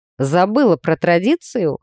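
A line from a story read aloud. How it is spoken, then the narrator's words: Amused grunt. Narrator (Russian): хмыкнул Ней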